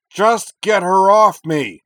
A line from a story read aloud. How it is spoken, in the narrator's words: Corwin roared